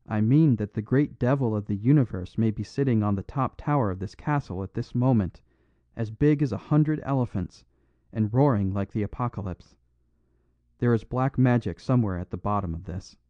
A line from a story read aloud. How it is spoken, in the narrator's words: answered the little priest, and his voice seemed to rise slightly in the roar of the gale